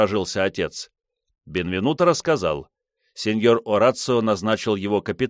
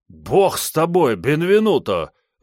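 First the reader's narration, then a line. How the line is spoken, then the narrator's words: Horrified exclamation. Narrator (Russian): в ужасе воскликнул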